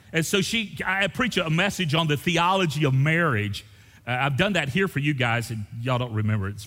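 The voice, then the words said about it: Southern American accent. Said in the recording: “people with a southern accent, everybody thinks they're ignorant”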